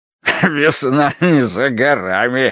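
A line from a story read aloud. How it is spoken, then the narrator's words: Loud laughter. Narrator (Russian): расхохотался он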